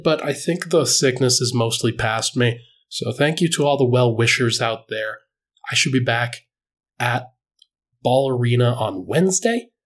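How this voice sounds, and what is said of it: Slightly congested voice. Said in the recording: “hear it in my voice. ... Still a little congested”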